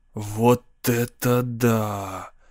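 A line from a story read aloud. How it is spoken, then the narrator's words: Awed whisper. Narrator (Russian): с благоговением прошептал Донни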